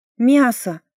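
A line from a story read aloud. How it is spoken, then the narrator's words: Exclamation. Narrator (Russian): воскликнула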